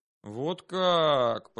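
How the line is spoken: Drawled. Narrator (Russian): протянул я

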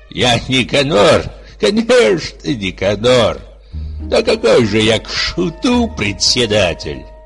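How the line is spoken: Terrible laughing reply. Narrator (Russian): Никанор Иванович, рассмеявшись страшным смехом, ответил буквально так

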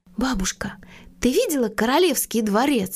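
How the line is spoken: Plain. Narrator (Russian): спросила Мона

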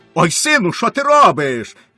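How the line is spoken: Father shouting. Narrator (Ukrainian): крикнув батько

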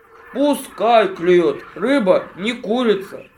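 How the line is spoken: Grumbling bear. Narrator (Russian): проворчал медведь

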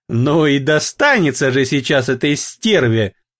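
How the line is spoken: Spiteful giggle. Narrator (Russian): злобно хихикнула Эвелин

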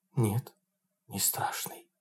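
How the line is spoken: Whisper. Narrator (Russian): прошептала Тамара

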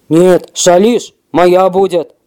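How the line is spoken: Growling wolf. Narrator (Russian): зарычал волк

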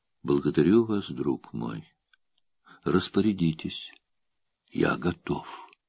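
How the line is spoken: Calm. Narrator (Russian): Император спокойно говорит ей

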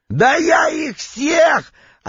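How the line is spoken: Yelling again. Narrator (Russian): опять заорал Витек

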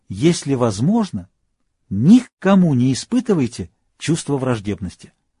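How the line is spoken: Despairing exclamation. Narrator (Russian): из глубины своего отчаяния Шопенгауэр воскликнул

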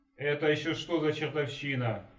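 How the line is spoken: Yell. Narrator (Russian): заорал

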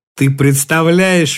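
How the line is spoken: Speaking through laughter. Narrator (Russian): выговорила она сквозь смех

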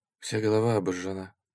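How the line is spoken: Quiet reply. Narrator (Russian): ответила Наташа также тихо

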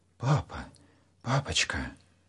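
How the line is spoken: Anxious whisper. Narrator (Russian): тревожно зашептал Саша

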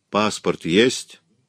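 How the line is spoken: Stern question. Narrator (Russian): строго спросил О'Тул

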